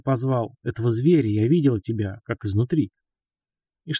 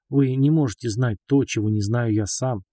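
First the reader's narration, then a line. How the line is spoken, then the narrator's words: Gentle objection. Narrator (Russian): мягко возразил ваш покорный слуга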